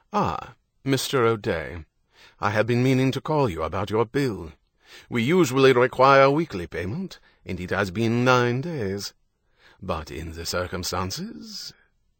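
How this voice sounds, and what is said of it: Pronounced British accent. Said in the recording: “speaking with a pronounced British accent”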